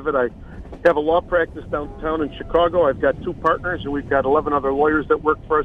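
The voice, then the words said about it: Strong Chicago accent. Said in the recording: “we hear that great Chicago accent ... I've tried to lose this accent for 60 years and I gave up”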